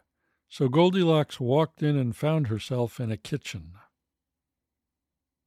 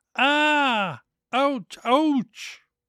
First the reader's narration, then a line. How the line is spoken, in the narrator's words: howled with pain